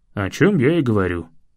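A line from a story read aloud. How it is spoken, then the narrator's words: Father's snort. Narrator (Russian): хмыкнул отец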